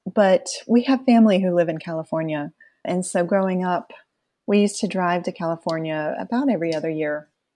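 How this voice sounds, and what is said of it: Southern US accent. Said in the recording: “I can hear it in your voice that you're from the South ... I'd kind of purged the Southern accent from my voice back when I worked in corporate America, but I think it snuck back in”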